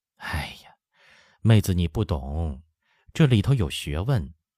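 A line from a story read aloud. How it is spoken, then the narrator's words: Sighing. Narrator (Chinese): 曹氏叹说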